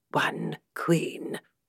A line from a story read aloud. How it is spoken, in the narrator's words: came the whispers